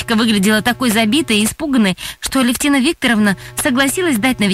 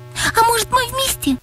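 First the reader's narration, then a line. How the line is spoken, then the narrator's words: Pleading. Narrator (Russian): взмолилась Настя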